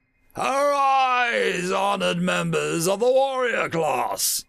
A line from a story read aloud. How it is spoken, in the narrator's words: His words thundered across the enormous room